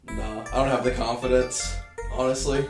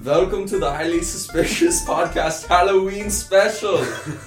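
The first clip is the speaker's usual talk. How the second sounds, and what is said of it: Mock Dracula-style German accent. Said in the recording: “the Dracula accent ... It's a German accent. Yeah, German.”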